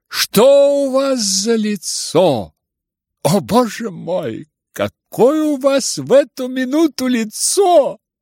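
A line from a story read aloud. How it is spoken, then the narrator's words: Laughing shout. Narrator (Russian): смеялась и кричала ему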